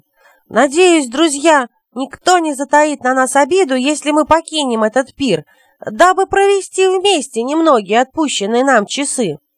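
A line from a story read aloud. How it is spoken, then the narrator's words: Loud, unhesitating. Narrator (Russian): Не раздумывая, юноша громко сказал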